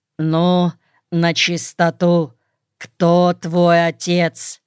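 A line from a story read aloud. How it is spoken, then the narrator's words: Man asking menacingly. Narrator (Russian): бравый, солидный мужчина, скорее всего, бывший красный партизан, грозно спросил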